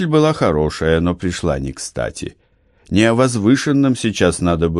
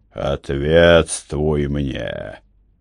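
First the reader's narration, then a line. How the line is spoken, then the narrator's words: Deep priestly bass. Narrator (Russian): басом священника выговорил Гарт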